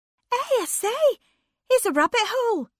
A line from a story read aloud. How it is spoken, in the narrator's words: cried Anne suddenly